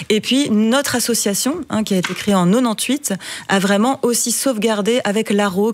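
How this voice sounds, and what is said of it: Slight French accent. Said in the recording (French): “cette petite pointe d'accent qu'on a remarqué fait qu'on comprend que vous n'êtes pas née dans les Marolles ... mon accent français”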